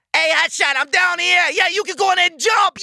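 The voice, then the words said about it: Happy childlike New York Bowery accent. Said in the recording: “he can have like a Bowery accent or something ... Like he can be like a real happy bus. Like he's a child, you know, a real happy New York kid.”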